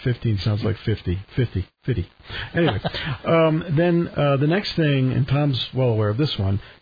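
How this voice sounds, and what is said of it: New York accent. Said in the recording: “my New York accent”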